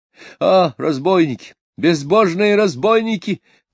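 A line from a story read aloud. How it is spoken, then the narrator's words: Shout. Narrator (Russian): крикнул тот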